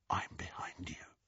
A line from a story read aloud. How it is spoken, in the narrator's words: he whispered into Hermione's ear